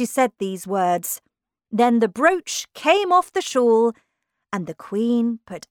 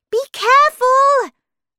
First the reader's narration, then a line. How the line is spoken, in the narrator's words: shouted Alice